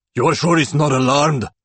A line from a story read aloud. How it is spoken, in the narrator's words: Igor growls